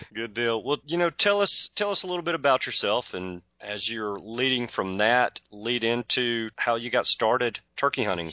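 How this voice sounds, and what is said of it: Southern American accent. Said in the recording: “I'll never lose a Southern accent. That just is not going to go away, even if I tried.”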